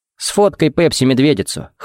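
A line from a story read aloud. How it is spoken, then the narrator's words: Snorting. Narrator (Russian): хмыкнул Джаред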